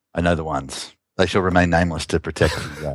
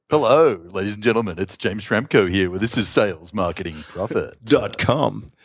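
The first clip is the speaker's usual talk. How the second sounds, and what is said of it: Cheesy radio announcer voice. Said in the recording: “put on your radio voice”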